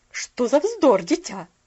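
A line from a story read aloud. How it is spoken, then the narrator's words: Slightly sharp interruption. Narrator (Russian): прервала ее миссис Керрю немножко резко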